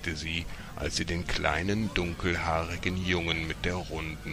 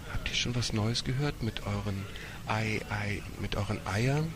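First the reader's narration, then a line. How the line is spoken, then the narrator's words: Older woman whispering. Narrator (German): Die ältere Dame flüsterte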